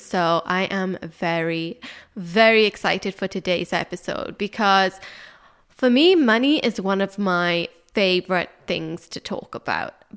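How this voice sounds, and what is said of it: Stuffy, congested voice. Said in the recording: “so is my cold. So excuse me if I sound a bit stuffy today”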